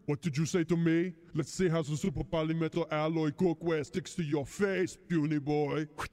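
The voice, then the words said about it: Poor impression of Arnold. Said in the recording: “Okay, Arnold ... All celebrity voices are poorly impersonated.”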